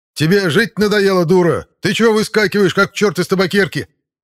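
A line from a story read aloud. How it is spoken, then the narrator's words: Instant yell. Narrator (Russian): Заорал он сходу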